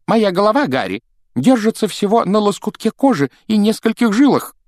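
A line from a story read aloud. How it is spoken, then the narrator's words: Exclaim. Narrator (Russian): воскликнул он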